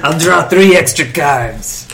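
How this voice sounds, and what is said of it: Cartoonish Hispanic boss accent. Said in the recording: “I'm talking a little bit like a Hispanic boss now ... It's still a cartoon accent ... I think he's starting to turn into a little bit of French there”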